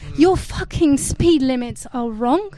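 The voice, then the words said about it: Put-on accent. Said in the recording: “Tell them in the accent.”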